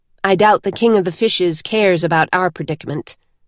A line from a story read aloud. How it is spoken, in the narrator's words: Siri said flatly